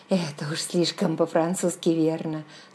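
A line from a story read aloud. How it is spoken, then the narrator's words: Asked. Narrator (Russian): спросила я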